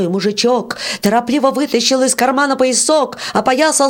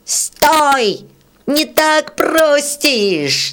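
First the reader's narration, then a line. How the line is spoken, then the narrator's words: Angry shout. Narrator (Russian): сердито закричал рыжий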